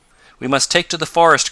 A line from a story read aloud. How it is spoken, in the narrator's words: cried Tom